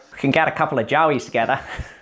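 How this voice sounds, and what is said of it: Poor put-on Australian accent. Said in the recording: “My accent is pretty atrocious.”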